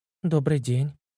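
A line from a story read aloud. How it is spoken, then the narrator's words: Puzzled whisper. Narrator (Russian): прошептала Алена, не понимая, почему начальница решила с ней поздороваться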